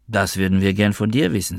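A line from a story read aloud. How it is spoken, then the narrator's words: Plain. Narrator (German): sagte sie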